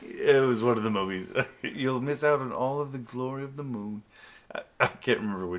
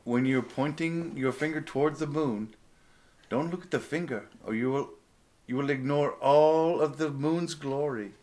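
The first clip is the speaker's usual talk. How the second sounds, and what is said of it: Poor Bruce Lee accent impression. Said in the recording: “You do a terrible Bruce Lee ... accent.”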